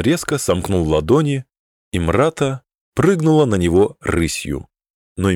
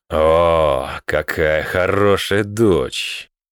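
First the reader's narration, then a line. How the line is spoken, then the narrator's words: Muttered through teeth. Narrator (Russian): процедил Громорокотран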